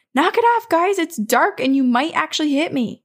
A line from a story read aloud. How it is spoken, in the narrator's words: So he simply shouts